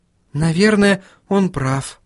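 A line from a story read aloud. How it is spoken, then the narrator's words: Sigh. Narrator (Russian): вздохнула Сахариса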